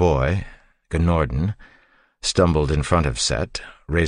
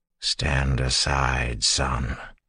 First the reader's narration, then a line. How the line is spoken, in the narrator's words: Set said in a tired voice